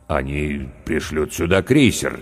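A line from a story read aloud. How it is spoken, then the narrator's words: Hesitant. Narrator (Russian): неуверенно сказал капитан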